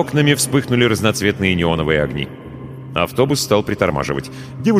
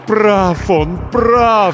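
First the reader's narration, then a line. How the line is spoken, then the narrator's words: Moaning. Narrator (Russian): стонало покойное сердце, никогда не знавшее покоя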